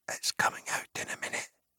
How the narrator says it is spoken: whispered Pippin to Merry

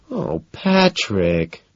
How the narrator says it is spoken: she whines

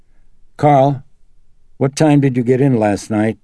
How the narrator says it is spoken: Chris called out to him

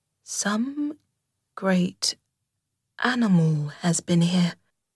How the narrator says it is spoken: she murmured slowly and thoughtfully, and stood musing, her mind strangely stirred

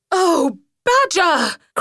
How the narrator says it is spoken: cried Rat

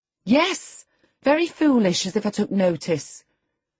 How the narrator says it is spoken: replied Catherine in a peevish tone

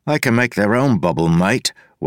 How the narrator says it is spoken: Wayne said

